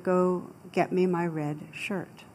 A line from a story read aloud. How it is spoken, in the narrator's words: the captain very calmly said to the soldier